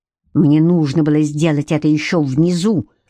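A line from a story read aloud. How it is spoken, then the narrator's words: Growled. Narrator (Russian): зарычал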